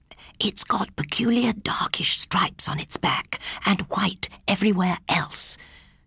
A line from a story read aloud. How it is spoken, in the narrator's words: said, lowering her voice in a ridiculous manner